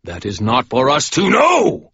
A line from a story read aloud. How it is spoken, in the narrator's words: Michael shouted